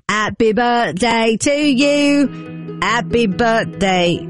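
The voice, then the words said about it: Sung in a put-on Cockney accent. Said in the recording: “Let me sing it in a Cockney accent. ... You take away the H's.”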